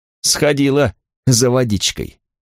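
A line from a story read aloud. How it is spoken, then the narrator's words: Gloomy giggle. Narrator (Russian): мрачно хихикнул кто-то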